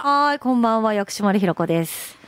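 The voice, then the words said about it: Imitates another person's voice. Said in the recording (Japanese): “薬師丸ひろ子さんの モノマネタレント”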